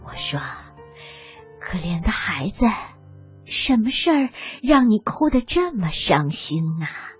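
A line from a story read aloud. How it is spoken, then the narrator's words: Soft question. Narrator (Chinese): 轻声的问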